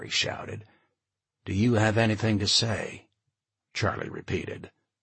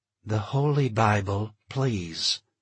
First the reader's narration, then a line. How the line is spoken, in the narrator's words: she said slowly, forcefully